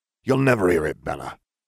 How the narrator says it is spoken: Sirius spat

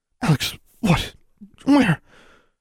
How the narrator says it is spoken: Her mother was on the verge of sputtering incoherently

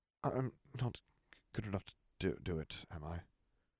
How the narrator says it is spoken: Nev muttered

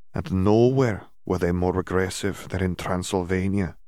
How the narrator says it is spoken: she sighed

